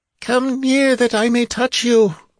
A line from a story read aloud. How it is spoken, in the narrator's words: the creature faltered